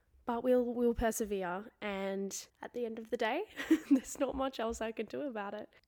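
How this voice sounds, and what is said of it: Hoarse, strained voice. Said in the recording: “My throat is sore, slowly losing my voice.”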